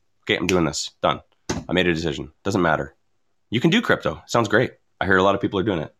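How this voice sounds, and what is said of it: Very fast speech. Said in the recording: “I'm talking so fast”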